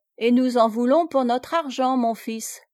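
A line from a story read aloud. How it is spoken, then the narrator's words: Plain. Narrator (French): répondit Asie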